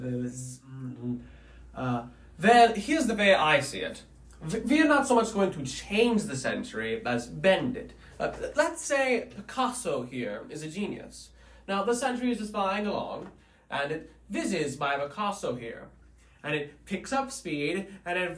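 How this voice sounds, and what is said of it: German accent, in character. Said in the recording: “in character for us with your magnificent German afflicted accent”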